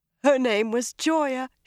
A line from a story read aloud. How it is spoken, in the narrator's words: she told Shiriam between sobs